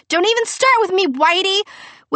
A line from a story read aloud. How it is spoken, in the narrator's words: I would scream